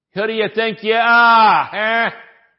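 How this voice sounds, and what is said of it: Put-on New Jersey accent. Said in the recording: “with a New Jersey accent”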